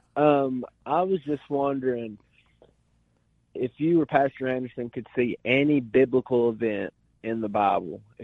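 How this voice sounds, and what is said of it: Noticeable Tennessee accent. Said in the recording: “Chattanooga, Tennessee. ... I couldn't tell from the accent.”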